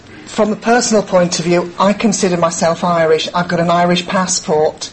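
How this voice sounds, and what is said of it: English accent. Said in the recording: “I've got an English accent. ... my English accent,”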